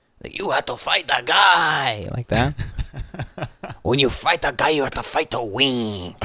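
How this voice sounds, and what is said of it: Put-on macho Mexican accent. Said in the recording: “like macho Mexican guy accent ... Like really horrible.”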